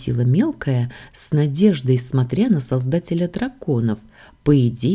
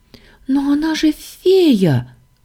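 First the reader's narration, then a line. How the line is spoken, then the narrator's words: Exclaiming. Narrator (Russian): воскликнула Саша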